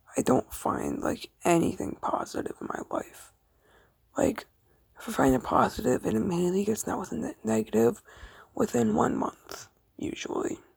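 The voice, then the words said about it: Flat, dead-sounding voice. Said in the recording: “my voice is dead”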